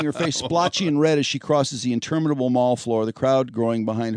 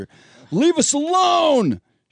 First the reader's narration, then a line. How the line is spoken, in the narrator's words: yells